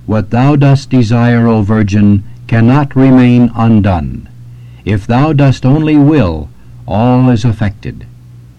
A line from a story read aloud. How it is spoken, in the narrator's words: Hence, Saint Anselm exclaims